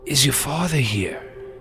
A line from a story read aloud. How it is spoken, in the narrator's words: Frankie looked pale, and he had his hoodie up, and he says in a weak voice